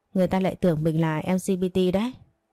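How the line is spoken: Laughing. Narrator (Vietnamese): Tuệ Lâm bật cười

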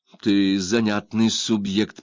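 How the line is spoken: Through gritted teeth. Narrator (Russian): процедил Гейл

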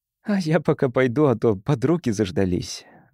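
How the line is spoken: Sigh. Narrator (Russian): вздохнула Эмили

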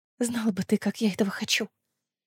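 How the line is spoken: Whisper. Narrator (Russian): прошептала

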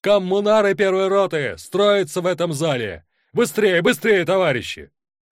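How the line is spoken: Shout from above. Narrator (Russian): Михаил Шкаленко, взобравшись на стул, крикнул

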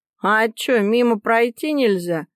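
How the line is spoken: Surly snapping young man. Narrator (Russian): огрызнулся парень

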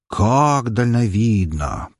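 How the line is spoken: Drawl. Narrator (Russian): протянул я

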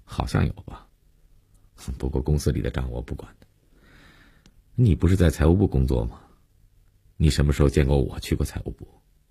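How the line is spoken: Indifferent, casual admission. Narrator (Chinese): 林信成淡淡的，无所谓的承认

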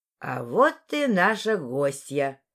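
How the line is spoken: Loud announcement. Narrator (Russian): громко объявила леди Агата

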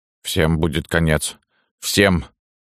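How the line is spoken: Sudden wheeze. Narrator (Russian): захрипела вдруг Фива

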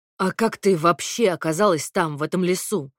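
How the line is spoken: Menacing question. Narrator (Russian): грозно спросил Костя

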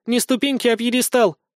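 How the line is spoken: Snapped. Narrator (Russian): огрызнулась справа Юля

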